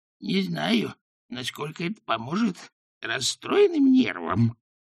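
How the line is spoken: Breathless wheeze. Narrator (Russian): задыхаясь, просипела она

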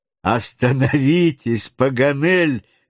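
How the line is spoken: Interrupting, laughing heartily. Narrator (Russian): вмешался хохотавший от души Гленарван

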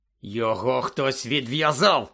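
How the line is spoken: Growling. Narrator (Ukrainian): загарчав Кат

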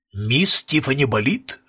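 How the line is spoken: Formal tone. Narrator (Russian): спросил он официальным тоном

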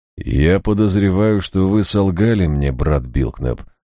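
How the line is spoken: Cold. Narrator (Russian): холодно проговорил Эйнсворт

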